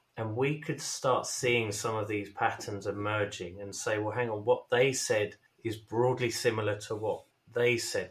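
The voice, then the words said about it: British accent. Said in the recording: “As you may detect from our accents, I'm based in the UK”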